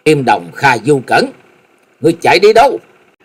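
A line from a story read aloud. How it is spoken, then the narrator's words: Loud shout. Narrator (Vietnamese): Hắc Y La Sát đệ nhị hét lớn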